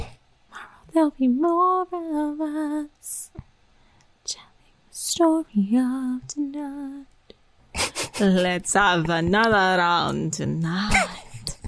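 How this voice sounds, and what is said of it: Whispered singing under the breath. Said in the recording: “I love your under your breath singing is my favorite... I'm whispering... whisper singing”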